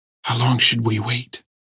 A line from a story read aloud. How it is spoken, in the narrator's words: She whispered